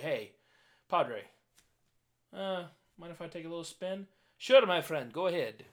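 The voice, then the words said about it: Put-on Ukrainian accent. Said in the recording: “Ukrainian sure, accent. Um, little deeper, little softer.”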